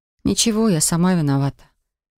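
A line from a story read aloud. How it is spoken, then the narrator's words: Cautious, timid. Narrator (Russian): осторожно произнесла я и робко улыбнулась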